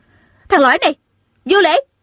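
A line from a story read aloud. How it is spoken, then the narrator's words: Angry shout. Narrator (Vietnamese): Tôn Trọng Quân giận dữ, ả bèn hét lên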